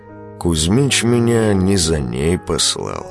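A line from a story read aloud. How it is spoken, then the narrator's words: Calm answer. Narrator (Russian): спокойно ответил Велес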